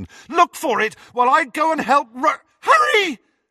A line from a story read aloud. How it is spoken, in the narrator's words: she screamed